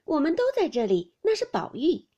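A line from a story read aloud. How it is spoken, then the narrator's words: Group laughing. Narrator (Chinese): 众人笑道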